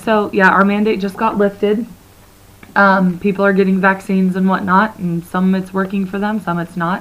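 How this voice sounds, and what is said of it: Hoarse, froggy voice. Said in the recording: “I sound like a little bit froggy today ... her voice sounds like this ... I need this sultry voice”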